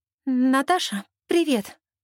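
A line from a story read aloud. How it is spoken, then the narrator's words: Anxious voice. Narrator (Russian): произносит Надя встревоженным голосом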